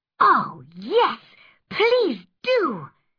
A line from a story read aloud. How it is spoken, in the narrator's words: cried Anne excitedly